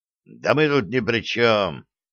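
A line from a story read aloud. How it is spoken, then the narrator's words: Angry exhale. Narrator (Russian): зло выдохнул Саша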